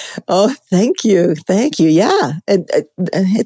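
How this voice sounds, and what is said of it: Usual voice. Nothing is said of it.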